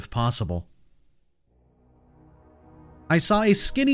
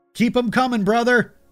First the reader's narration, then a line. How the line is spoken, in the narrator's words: I yelled back to him